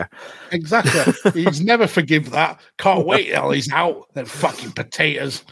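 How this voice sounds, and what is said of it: Deeper put-on Gloucester accent. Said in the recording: “I presume your dad's more Gloucester than you. That's why I did a deeper accent.”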